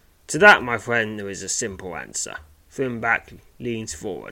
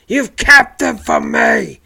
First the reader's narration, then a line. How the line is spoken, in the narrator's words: snarls